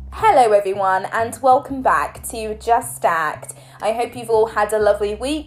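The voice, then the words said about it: Croaky, slightly off voice. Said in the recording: “My throat has been rather itchy and croaky ... my voice sounds a little bit offish this week. I am definitely recovering from a cold.”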